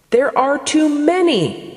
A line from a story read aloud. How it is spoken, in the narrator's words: the flowers exclaimed